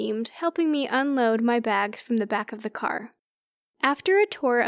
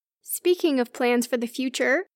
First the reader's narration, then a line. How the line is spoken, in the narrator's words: Mara chirped